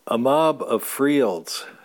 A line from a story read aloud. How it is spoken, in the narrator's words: says Lita